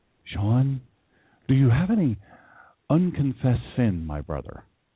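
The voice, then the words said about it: Churchy, pastor-like preaching voice. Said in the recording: “put on his most pastorful voice ... he puts on this really churchy voice”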